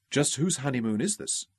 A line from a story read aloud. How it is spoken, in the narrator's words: Kathy mumbled in Ralph's ear one lazy, loving morning